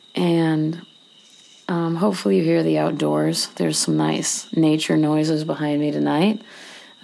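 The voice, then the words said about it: Strained voice, losing their voice. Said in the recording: “I sound a little weird because I'm losing my voice”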